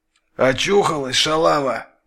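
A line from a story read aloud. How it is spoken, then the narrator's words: Angry hoarse voice. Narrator (Russian): зло зазвучал хриплый голос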